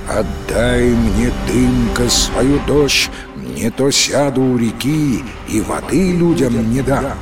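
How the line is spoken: Human voice. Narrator (Russian): говорит ему человеческим голосом

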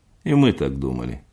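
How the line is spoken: Dry remark. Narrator (Russian): сухо заметил Ленц

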